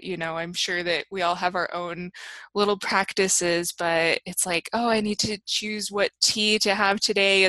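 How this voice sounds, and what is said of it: Slightly hoarse, fading voice. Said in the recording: “losing my voice a little bit”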